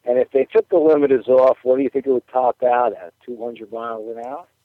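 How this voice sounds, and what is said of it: Speaks with a noticeable accent. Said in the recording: “Gotta love that accent.”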